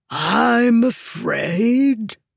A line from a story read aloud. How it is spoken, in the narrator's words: Zahak said calmly, his voice ringing out in the silence